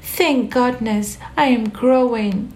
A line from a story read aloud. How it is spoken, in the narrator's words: she cried